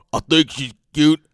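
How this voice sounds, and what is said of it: Bad impression, stuffy head-cold voice. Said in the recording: “That's a really bad Braun Strowman impersonation. It's like he has a head cold or something.”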